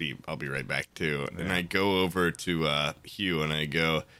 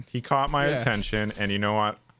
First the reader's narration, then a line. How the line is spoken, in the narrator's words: I laughed at him